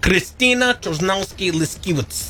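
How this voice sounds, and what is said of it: Put-on Russian accent. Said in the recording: “Let me do it with my Russian accent.”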